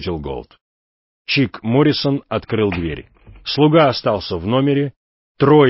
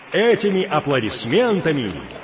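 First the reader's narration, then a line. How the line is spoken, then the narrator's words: Shouting announcer into microphone. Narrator (Russian): закричал радиодиктор в микрофон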